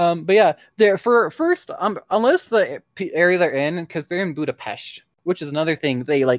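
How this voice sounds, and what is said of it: Usual voice. Nothing is said of it.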